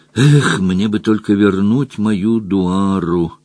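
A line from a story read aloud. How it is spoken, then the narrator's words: Muttering. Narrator (Russian): бормотал Джон Том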